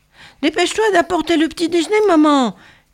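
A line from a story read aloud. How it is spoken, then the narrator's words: Shouting together. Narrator (French): criaient Simon et Patrick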